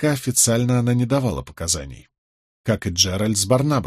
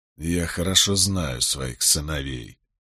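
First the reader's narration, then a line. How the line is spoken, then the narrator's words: Through gritted teeth. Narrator (Russian): процедил Болейн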